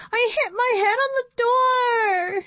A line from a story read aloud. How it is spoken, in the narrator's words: whined